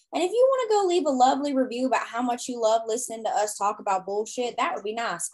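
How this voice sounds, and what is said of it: Strong Southern US accent. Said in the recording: “That southern accent just came out real strong”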